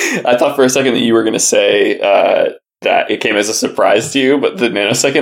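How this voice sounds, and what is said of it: Usual voice. Nothing is said of it.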